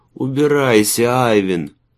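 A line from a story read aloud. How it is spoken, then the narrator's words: Muffled moan into fur. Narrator (Russian): простонал он, уткнувшись в мех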